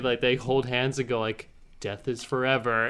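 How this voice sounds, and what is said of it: Robotic voice. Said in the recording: “that was a really good robot voice”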